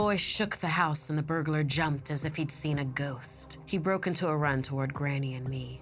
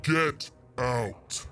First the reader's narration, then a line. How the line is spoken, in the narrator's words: he boomed at the intruder